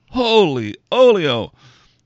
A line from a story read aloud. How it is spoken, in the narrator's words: Robin shouts